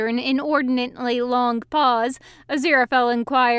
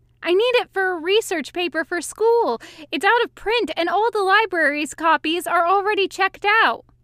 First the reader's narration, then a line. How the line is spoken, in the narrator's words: the young man continued rather desperately